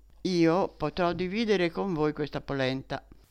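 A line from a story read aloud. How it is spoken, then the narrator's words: Plain. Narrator (Italian): disse ella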